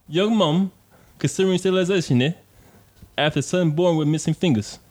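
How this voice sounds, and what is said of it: Put-on British accent. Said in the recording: “that in your most British accent possible, bro ... I need you to do that for the most British accent possible.”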